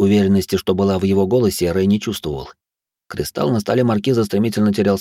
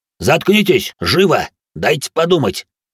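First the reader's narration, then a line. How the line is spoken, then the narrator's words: Barked. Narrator (Russian): Рявкнул Рэй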